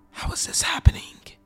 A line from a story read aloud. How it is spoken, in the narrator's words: I whispered